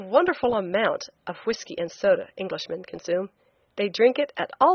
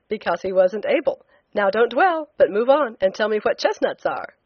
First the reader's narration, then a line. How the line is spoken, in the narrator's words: I said teasingly